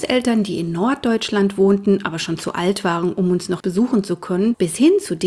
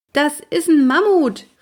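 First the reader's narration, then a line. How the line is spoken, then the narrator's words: Calling upward. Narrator (German): rief ich zu Walli hoch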